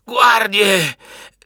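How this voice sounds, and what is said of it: Shouting in a broken, cracking voice. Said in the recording (Italian): “grida ... con la voce rotta”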